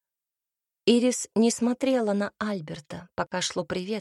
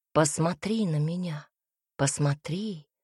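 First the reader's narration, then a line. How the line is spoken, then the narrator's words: Whisper. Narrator (Russian): Будто кто-то внутри шептал ей эти слова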